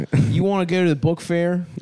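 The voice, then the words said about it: Exaggerated put-on Delaware accent. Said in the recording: “doing an impression of yourself? ... I'm doing an extreme Delaware accent.”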